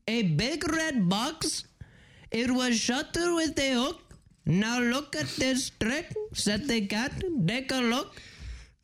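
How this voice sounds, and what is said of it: Reads in a put-on accent. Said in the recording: “I work on accents, and this is also an accent ... It was an accent.”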